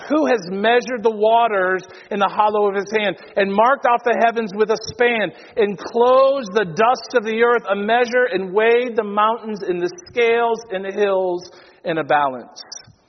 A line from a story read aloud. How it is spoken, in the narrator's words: Isaiah cries out